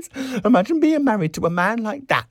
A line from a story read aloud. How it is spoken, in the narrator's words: she cried